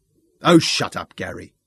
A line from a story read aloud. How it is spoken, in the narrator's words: Sean snapped